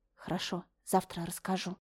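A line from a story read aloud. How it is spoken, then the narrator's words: Quiet reply. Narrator (Russian): ответила также тихо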